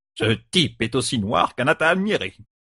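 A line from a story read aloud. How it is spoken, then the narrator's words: Grumble. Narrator (French): grommela Noal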